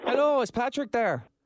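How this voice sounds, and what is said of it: Put-on Irish accent. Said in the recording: “is going to put on his best Irish accent.”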